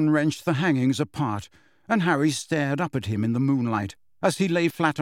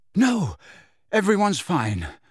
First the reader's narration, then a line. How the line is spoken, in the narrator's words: gasped Harry, whose forehead felt as though it was on fire again